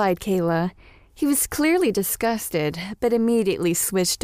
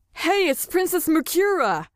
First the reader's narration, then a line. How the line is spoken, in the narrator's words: called out one of the guys